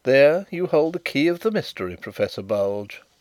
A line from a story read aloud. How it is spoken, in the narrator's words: interposed Carrados quietly